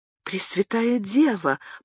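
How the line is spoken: Stunned whisper. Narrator (Russian): прошептала герцогиня де Кастро, пораженная этой вестью

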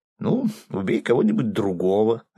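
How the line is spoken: Laughing. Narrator (Russian): рассмеялся и худой

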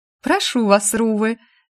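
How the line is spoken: Girl giggling. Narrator (Russian): хихикнув, девушка пригласила

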